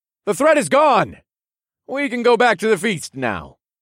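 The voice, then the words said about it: Raised, loud voice. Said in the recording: “raised my voice so everyone gathered could hear me”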